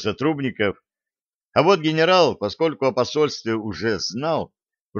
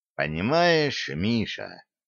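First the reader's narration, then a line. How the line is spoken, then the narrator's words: Insinuating soft voice. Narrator (Russian): вкрадчивым голосом ответил Сибанов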